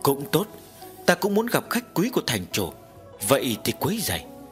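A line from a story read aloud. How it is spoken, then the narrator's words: Soft laugh, woman. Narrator (Vietnamese): Mỹ phụ khẽ cười nói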